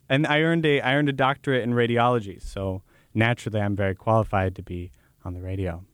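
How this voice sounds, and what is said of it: Strong genuine accent. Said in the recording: “But listen to that accent. my God, that's real. I'm not putting that on in that clip.”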